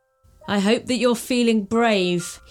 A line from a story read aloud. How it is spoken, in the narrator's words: he laughed